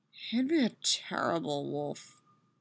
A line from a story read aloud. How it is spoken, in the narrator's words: she mutters